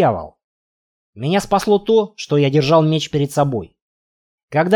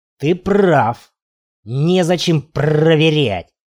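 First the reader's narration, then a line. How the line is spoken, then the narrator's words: Hissed. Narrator (Russian): прошипел он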